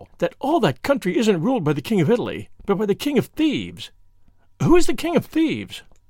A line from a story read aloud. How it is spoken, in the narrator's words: she cried, with the awful relish of a schoolgirl